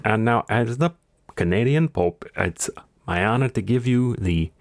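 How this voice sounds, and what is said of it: Put-on Canadian-Italian accent. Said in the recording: “I'm switching into New York guy... This is a Canadian-Italian accent... It's getting too hard.”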